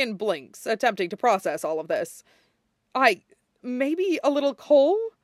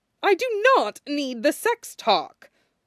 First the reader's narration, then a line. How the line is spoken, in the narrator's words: Dorian snaps